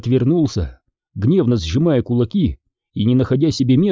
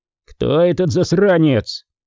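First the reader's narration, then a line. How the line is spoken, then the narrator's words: Exasperated shout. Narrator (Russian): Не выдержав, снова закричал Ди Джорджо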